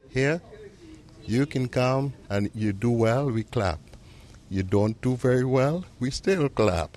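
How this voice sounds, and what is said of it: Trinidadian accent. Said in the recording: “I never lost my accent. It's mine.”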